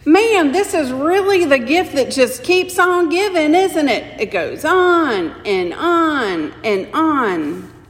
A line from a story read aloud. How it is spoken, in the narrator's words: Stanley shouted